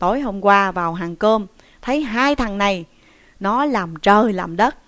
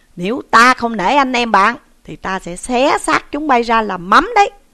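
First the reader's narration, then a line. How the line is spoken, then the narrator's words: Threatening shout. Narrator (Vietnamese): Trí Thâm quát bảo hai tên công sai rằng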